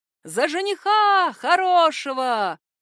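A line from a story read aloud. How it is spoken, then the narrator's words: Shouted toast. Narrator (Russian): кто-то крикнул тост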